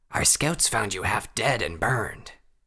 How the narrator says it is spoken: the wolven rasped

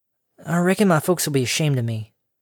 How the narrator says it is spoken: the orange pony, the same pony who was presently murmuring

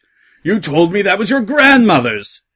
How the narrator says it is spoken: He shouted

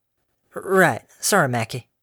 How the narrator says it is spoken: she murmured

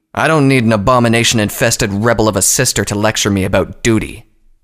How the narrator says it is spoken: Tirado said menacingly

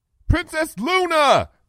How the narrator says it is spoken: shouted

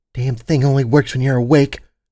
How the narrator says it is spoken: she muttered

